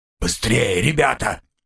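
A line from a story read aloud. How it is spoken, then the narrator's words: Hoarse. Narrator (Russian): хрипло проговорил Гремс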